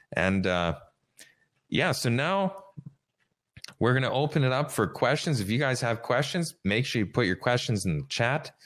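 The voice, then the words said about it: Slightly sick-sounding voice. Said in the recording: “I was a little bit under the weather here, so you can still hear it in my voice.”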